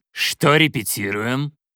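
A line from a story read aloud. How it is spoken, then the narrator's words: Stern. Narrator (Russian): он строго произнес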